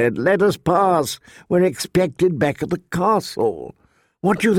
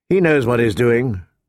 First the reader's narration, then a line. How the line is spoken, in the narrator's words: Ned said calmly